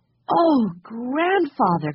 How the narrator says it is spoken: cried Jessie

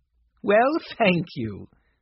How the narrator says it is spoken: said the lady, laughing

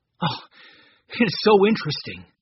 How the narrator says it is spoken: cried Larry

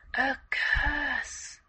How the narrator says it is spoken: came out in a whisper

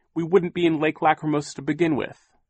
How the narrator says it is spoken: Violet said fiercely

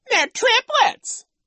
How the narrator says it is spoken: Nero mocked

